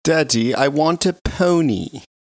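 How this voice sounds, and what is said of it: Imitation of a young daughter's voice. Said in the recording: “That's her accent. Perfect. ... that's exactly how she speaks.”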